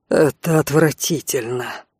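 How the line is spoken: Cold, through gritted teeth. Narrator (Russian): процедил Алан, чувствуя, как внутри все леденеет

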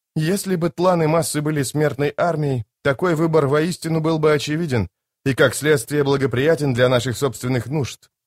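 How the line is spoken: Plain. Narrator (Russian): ответил Итковиан

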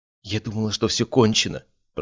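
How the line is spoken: Muffled whisper. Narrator (Russian): прошептала она в мою грудь

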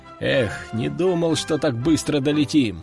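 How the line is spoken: Grumbled displeased. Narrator (Russian): недовольно пробурчал он

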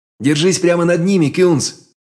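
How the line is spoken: Shouted. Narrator (Russian): крикнул я

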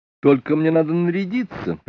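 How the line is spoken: Eager warning. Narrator (Russian): предупредил он, блестя глазами

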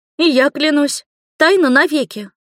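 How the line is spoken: Exclaiming. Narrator (Russian): воскликнула Камила

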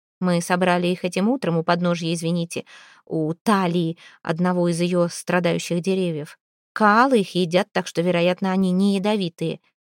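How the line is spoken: Plain. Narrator (Russian): сказала она

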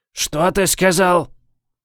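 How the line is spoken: Growling. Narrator (Russian): прорычал Уайтинг

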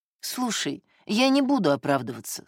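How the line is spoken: Quiet. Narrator (Russian): сказал Владик тихо

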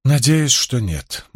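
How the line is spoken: Grim. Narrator (Russian): мрачно ответила Илэйн

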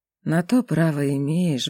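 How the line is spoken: Sighing. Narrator (Russian): вздохнул Велес

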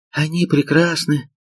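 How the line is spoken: Sighing. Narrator (Russian): вздохнула

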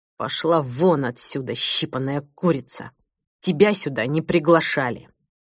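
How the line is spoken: Hissed through clenched teeth. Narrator (Russian): Сквозь сжатые в бессилии зубы процедил

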